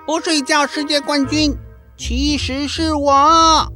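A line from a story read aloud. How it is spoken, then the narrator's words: Shouting. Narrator (Chinese): 霹雳鼠也大叫着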